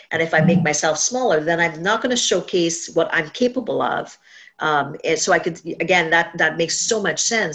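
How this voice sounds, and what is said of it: Caribbean accent. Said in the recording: “my Caribbean accent”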